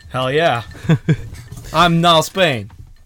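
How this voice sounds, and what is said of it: Yelling, exuberant loud voice. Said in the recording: “Stop yelling. ... Yes, you're yelling. ... I'm sorry for getting exuberant.”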